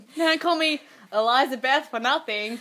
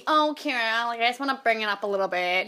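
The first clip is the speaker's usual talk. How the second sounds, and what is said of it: Imitates another person's voice. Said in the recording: “That was a really good impersonation of Thank Eliza you.”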